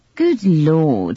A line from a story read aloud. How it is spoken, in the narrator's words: exclaimed